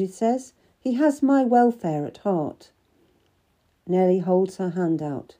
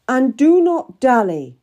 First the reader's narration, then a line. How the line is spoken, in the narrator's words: I shout after her